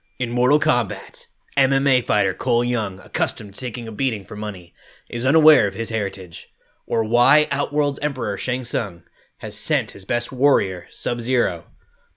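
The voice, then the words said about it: Dramatic movie-trailer narrator voice. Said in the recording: “In my best movie voice.”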